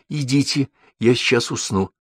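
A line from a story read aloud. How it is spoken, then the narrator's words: Girl, almost calm. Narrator (Russian): девочка сказала уж почти спокойно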